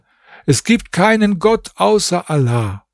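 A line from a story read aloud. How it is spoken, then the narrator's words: Called out. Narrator (German): Ich rief daher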